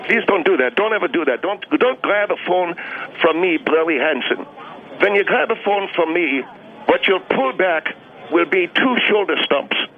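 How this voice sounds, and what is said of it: Fake Alsace-Lorraine accent. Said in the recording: “your pseudo Alsace Lorraine accent”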